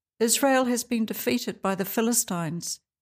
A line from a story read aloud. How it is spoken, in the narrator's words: the messenger replied